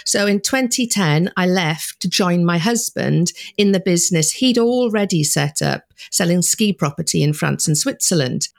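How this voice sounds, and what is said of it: Welsh accent. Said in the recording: “don't be fooled by the accent, I was born in Wales”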